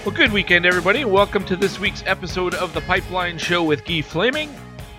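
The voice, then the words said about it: Congested, slightly sick voice. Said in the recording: “I'm feeling a little under the weather ... I'm a little congested, though ... If I sound sick,”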